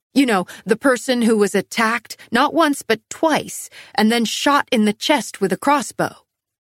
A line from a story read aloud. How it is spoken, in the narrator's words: I snapped